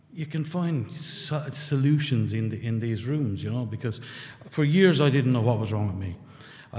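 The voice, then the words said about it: Rural Irish accent. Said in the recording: “I'm not doing the accent. This is my accent. ... I'm from a small town in rural Ireland”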